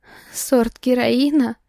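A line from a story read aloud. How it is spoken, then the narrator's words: Nervous giggle. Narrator (Russian): Нервно хихикнула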